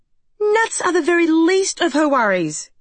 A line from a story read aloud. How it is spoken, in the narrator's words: cried Julia